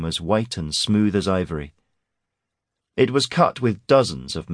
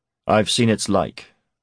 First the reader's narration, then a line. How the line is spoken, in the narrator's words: said Garrick